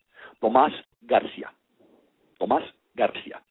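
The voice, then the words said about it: Name said with slight accent. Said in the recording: “let me say that with a little bit of an accent.”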